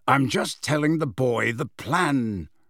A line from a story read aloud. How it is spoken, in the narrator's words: growled Moody